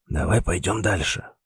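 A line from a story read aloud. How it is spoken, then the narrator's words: Whispered suggestion, professor. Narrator (Russian): все так же шепотом предложил профессор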